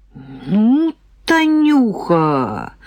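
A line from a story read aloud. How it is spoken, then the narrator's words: Admiring drawl. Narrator (Russian): восхищенно протянул Сережка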